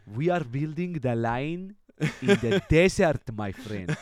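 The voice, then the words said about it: Put-on Cypriot accent. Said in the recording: “I love the Cypriot accent. ... It is the best accent that you can imagine.”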